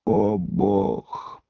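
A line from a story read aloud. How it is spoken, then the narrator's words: Groan. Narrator (Russian): простонал Левий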